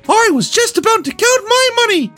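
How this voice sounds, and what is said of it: Mickey Mouse impression. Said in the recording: “Let's see if I can keep the voice up here... Mickey said in his trademark voice.”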